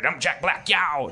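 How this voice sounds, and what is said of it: Imitates another person's voice. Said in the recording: “bad impression. bad impression. That's pretty good.”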